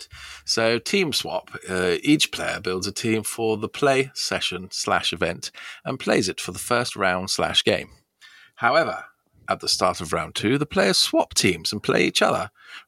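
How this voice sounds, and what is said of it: Formal BBC newsreader voice. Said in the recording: “put on my BBC newsreader voice”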